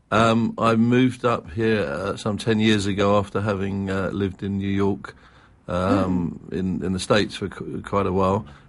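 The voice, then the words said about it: London English accent. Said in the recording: “originally I'm from London, as your listeners can tell by the accent.”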